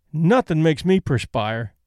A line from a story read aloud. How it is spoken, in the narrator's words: said Mary